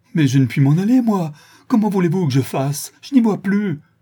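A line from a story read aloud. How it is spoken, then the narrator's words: Desperate cry. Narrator (French): s'écria avec désespoir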